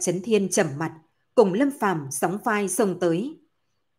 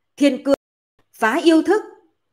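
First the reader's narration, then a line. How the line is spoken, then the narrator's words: Loud shout. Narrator (Vietnamese): Bạch Chấn Thiên lớn tiếng hô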